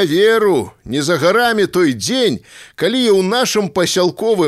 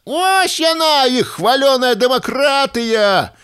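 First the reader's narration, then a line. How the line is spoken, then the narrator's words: Shouted from the gallery. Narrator (Belarusian): закрычаў нехта з галёркі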